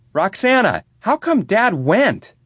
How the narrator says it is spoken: yelled out

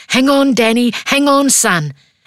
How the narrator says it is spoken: I scream

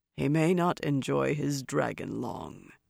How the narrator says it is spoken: Loghain murmured

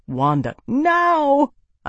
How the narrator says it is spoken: I shouted

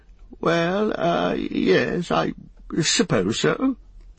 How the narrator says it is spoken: stammered Bilbo

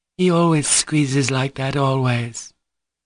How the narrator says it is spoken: Grushenka put in gaily with a timid smile

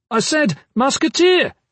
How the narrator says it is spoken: Kip shouted

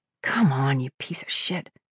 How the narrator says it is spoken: she muttered

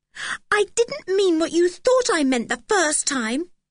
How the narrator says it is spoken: began Anne indignantly

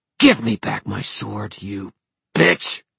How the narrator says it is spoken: she snarled

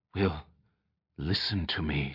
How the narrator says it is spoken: she whispered

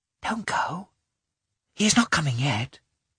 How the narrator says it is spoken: whispered

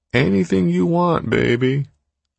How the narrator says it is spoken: Zone drawled

